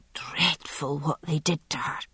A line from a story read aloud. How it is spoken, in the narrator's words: Miss Cowden said, lowering her voice as though the figure in the chair could hear